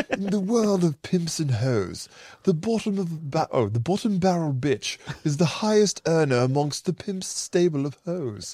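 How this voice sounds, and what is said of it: Posh British accent. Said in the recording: “you're reading it like Prince Charles, dude. You sound exactly like. ... This is an accent ... sounds like Charles ... Very good. Very nice.”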